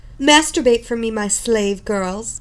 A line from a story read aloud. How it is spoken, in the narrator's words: she snapped